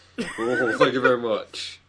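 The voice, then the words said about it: Good impression of another person's voice. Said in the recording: “Little Elvis ... That was actually a really good impression.”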